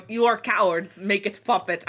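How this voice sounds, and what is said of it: Generic Russian accent. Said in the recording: “Like Werner Herzog going ... I don't think it's his accent. I'm just doing a generic Russian accent.”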